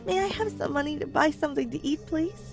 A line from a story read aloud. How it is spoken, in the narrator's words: she begged